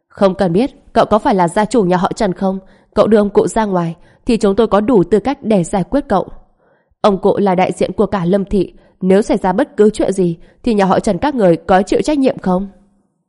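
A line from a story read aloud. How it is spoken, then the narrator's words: Angry group scolding. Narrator (Vietnamese): Một đám người nhà họ Lâm đều tức tối giận dữ mắng mỏ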